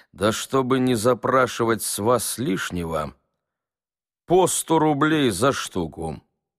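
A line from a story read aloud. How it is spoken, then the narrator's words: Plain. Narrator (Russian): сказал Собакевич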